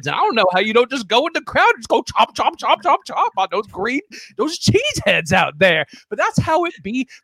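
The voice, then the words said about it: Imitates another person's voice. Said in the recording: “doing an impersonation of Cedric the Entertainer”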